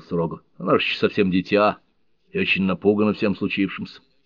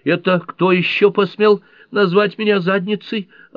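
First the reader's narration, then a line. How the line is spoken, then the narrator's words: Snapping retort. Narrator (Russian): огрызнулась она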